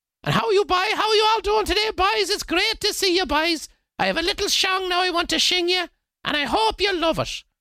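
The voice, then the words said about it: Thick Cork Irish accent. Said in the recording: “he sang this in a thick Cork accent.”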